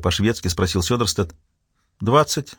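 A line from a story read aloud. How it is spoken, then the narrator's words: Plain. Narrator (Russian): ответила Ирена Парика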